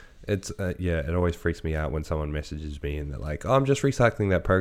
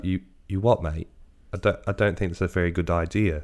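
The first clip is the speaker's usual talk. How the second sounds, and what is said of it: Bad put-on British accent. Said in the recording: “That was a terrible accent. ... I turned British for a second.”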